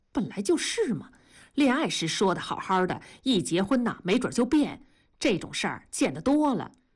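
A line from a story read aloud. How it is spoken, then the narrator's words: Muttering. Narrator (Chinese): 文慧嘀咕道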